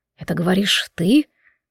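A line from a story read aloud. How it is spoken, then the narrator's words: Pained whisper. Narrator (Russian): с болью прошептал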